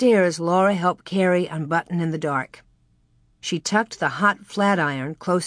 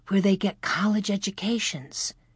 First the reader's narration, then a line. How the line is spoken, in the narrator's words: whispered Laura